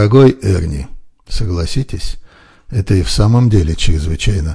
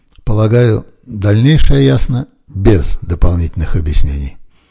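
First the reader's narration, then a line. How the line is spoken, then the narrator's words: Calm. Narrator (Russian): спокойно добавил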